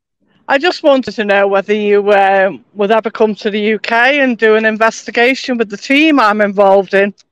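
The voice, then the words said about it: British Liverpool accent. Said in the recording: “Liverpool. ... UK. ... That accent did not sound like Wisconsin.”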